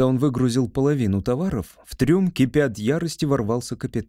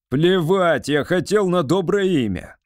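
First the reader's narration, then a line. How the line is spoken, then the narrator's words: Roaring. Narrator (Russian): взревел капитан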